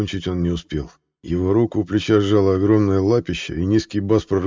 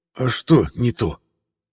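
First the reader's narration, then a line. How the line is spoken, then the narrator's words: Quiet hoarse voice. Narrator (Russian): просил я негромко своим сиплым голосом Тихого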